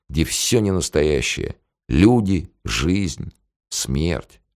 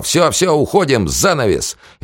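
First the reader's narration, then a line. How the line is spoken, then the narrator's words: Yelled. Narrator (Russian): заорал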